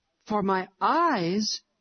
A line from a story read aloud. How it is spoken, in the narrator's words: exclaimed Harry, very much astonished